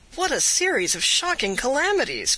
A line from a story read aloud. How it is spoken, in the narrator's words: cried Candide